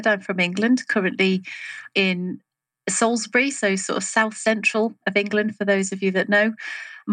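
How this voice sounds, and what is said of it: English accent. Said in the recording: “joining us from across the pond, as they say. So your accent will stand out to everyone.”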